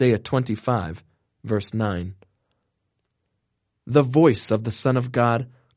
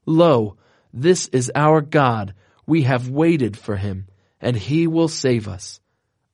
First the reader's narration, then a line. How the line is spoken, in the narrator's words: the voices of the saints exclaiming